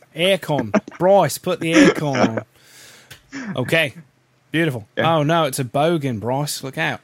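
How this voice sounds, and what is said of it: Put-on Australian accent. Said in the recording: “when you have an Australian accent, it's like Bryce.”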